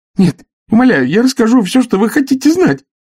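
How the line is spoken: Frightened wail. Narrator (Russian): испуганно завопил арестант

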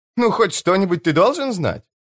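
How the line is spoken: Laughing. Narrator (Russian): засмеялась она

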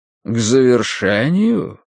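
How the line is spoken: Relishing drawl. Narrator (Russian): Протянул Клайн, как будто ему очень нравилось само слово

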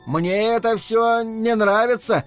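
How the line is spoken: Loud but uncertain. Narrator (Russian): неуверенно, хотя и громко произнес Рики

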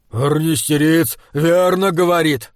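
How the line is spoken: Stout man's shout. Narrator (Russian): закричал тучный Ордмайер

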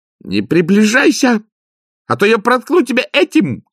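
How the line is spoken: Shouted. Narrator (Russian): крикнула она

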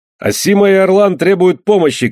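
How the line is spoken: Shout. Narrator (Russian): крикнул Андре

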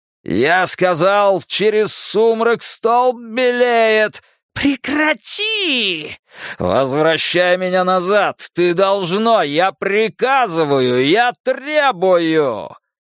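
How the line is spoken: Screaming again. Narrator (Russian): Оно закричало снова

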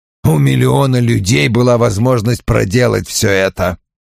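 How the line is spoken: Grumbling. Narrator (Russian): проворчал Вульф

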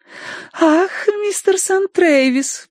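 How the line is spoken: Cooing. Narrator (Russian): проворковала она

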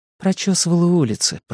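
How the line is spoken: Mumbled. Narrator (Russian): пробормотала Мия

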